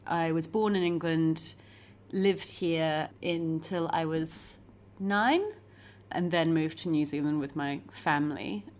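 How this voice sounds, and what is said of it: Mixed English and New Zealand accent. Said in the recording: “my sort of mongrel accent”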